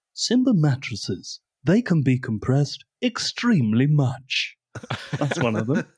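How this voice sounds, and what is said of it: Passable James Acaster impression. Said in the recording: “That was a passable James Acaster impression. ... It fell off a bit at the end”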